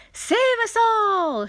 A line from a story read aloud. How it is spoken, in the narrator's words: she yelled